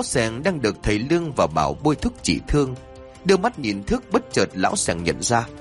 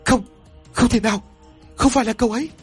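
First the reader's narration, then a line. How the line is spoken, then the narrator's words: Frightened, trembling voice. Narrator (Vietnamese): Thức đổ mồ hôi lạnh, run rẩy giọng của Thức nói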